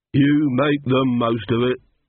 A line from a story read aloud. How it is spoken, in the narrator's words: said the second coachman gloomily